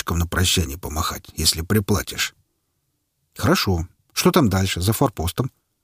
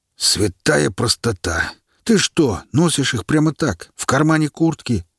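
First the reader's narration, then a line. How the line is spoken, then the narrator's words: Exclamation. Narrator (Russian): воскликнул Тромб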